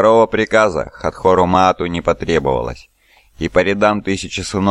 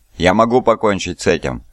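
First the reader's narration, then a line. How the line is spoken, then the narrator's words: Plain. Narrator (Russian): ответил Фозисткар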